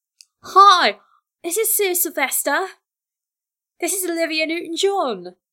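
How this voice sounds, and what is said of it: Terrible put-on accent imitating another person. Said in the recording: “That's a terrible accent... This accent is ridiculous”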